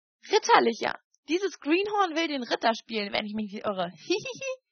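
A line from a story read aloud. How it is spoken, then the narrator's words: Laughing speech. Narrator (German): noch immer lachend, fort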